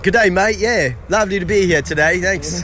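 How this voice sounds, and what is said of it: Put-on accent. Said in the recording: “Look, I got to do an accent.”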